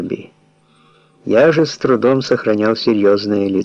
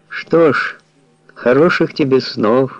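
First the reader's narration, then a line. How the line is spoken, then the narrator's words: Sighing. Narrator (Russian): вздохнула она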